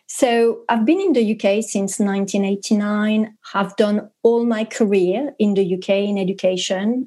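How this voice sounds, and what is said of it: French accent in English. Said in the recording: “you'll hear through my terrible accent. I'm French”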